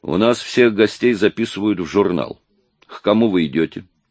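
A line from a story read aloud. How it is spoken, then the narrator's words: Stern questioning. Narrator (Russian): Он задавал вопросы не строже любого фараона в Орхид-Сити, но и достаточно строго, чтобы пронять самого невозмутимого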